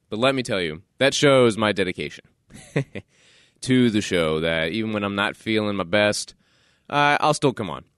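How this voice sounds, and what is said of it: Stuffed-up, nasal congested voice. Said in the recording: “my voice sounds a little different. Maybe I sound a little stuffed up or a little more nasally... I'm not feeling too well.”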